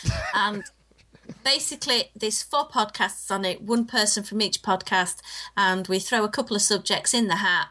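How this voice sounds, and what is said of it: English accent. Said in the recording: “It's my English accent”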